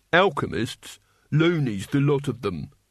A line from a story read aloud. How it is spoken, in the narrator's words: said Truckle